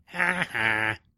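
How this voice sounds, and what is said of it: Imitated mocking cartoon laugh. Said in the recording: “Insert Nelson Muntz laugh here. ... My best imitation”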